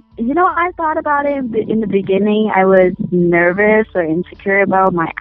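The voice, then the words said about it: Asian-accented English. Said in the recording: “because of my accents ... I might sound too Asian, or I need to take some speech lessons to get more sound more white ... I really own my accent”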